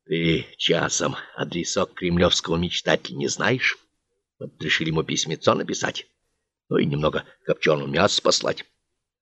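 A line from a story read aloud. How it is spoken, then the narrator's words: Whispered question. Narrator (Russian): счетовод спросил шептом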